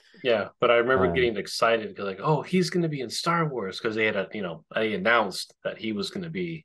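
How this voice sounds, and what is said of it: Usual voice. Nothing is said of it.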